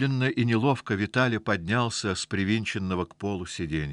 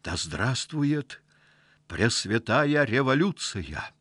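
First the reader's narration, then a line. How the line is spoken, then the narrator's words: Frightened whisper. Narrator (Russian): испуганным шепотом сказал Виталий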